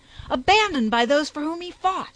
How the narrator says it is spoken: He roared his rage to the echoing cliffs

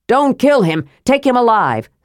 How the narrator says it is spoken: someone yelled

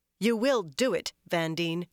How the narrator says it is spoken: she said firmly

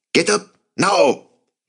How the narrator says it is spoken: shouted in Dutch and then in French

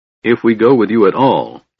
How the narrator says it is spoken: said harshly

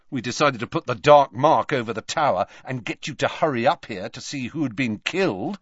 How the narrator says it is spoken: said Malfoy

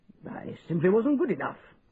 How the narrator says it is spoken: said the Major, gruffly

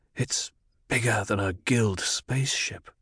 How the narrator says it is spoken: Paul whispered

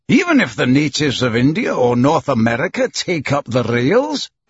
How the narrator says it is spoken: exclaimed Andrew Stewart

